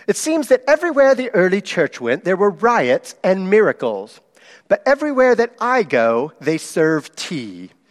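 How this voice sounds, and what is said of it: Bad put-on British accent, N.T. Wright. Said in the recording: “I'll do my British accent. It's terrible, though. N.T. Wright said it way better than this”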